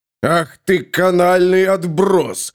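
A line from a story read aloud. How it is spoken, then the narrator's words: Furious roar. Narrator (Russian): взревел человек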